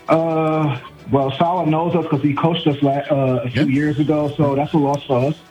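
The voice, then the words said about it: Brooklyn New York accent. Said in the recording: “the way you said "unfortunately" means you're from my neck of the woods... I can hear it from your accent.”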